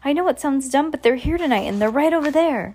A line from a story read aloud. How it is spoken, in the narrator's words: he added, looking nervously